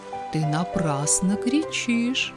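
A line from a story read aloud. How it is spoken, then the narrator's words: Plain. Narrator (Russian): сказал кто-то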